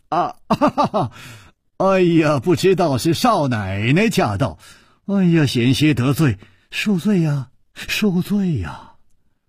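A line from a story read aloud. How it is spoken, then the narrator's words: Smiling. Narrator (Chinese): 楚留香微笑着说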